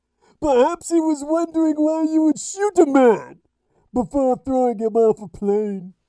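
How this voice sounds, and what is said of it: Bane impression. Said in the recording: “I do look like Bane, don't I? A little Dark Knight Rises for you. I gotta do the voice, though, don't I? ... Well, Bane, okay.”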